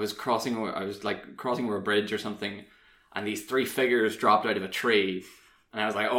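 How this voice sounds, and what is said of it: Usual voice. Nothing is said of it.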